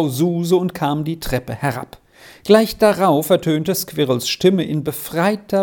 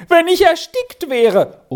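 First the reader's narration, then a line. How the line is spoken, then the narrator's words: Crying out. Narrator (German): schrie neuerdings auf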